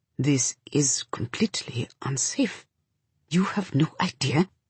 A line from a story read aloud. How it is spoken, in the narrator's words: says in a tight voice